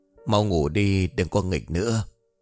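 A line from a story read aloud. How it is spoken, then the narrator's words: Sighing. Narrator (Vietnamese): Hoa liền thở dài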